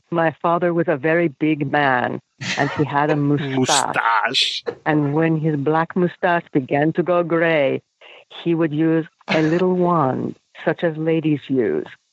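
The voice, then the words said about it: Imitates an actor's accented voice. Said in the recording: “Christopher Walken in that accent”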